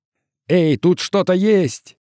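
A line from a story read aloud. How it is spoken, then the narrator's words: Shouted. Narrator (Russian): крикнул ему Хелман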